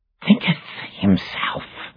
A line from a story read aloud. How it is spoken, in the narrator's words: hissed Caliban's voice from the shadows